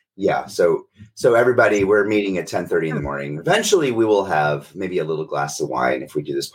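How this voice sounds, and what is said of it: Hoarse voice from sore throat. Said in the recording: “I'm getting over a sore throat. So excuse my voice”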